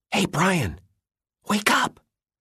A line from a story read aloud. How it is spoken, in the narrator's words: Bradley whispered